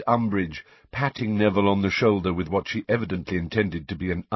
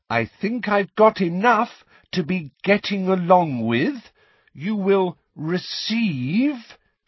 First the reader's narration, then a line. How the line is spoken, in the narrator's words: speaking once more in that loud, slow voice